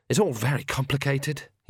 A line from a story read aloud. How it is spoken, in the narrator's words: he sighed